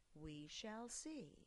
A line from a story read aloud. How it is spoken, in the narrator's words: Mother said calmly